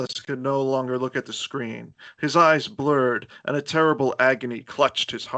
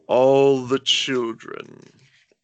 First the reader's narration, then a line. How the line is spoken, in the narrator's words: Said Chalice, his words slurring